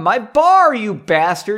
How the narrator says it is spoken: he yelled as he worked

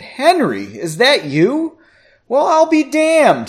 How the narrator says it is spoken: he exclaimed

